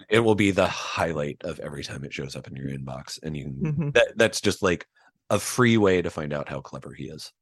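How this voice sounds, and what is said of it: Hoarse, strained, failing voice. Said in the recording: “Oh, my throat, I'm losing my voice.”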